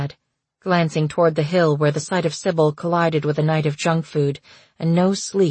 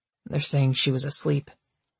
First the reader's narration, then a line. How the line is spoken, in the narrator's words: he muttered